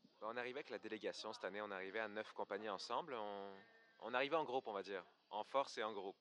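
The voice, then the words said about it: Slight Québécois French accent. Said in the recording (French): “t'as un accent ... j'ai un petit accent ... qui vient du Québec. J'ai un accent québécois un petit peu.”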